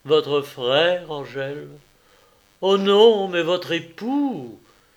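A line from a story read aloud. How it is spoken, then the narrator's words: Frenzied, delirious exclamation. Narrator (French): s'écria don Luis avec exaltation qui tenait du délire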